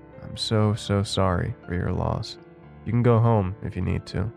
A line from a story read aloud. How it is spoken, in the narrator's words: my boss said calmly